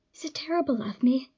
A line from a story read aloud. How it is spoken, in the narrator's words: Essek whispers